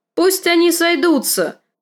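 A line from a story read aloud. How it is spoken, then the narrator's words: Shout. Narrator (Russian): крикнул лорд Роберт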